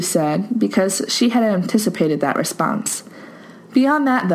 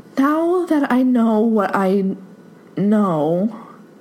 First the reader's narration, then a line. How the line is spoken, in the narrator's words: she faltered, lost her pace